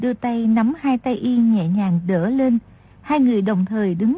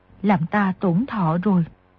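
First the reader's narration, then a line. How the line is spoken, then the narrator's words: Soft. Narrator (Vietnamese): Người đẹp kia khẽ nói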